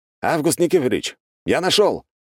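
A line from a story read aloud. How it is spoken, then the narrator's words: Shout. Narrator (Russian): крикнул я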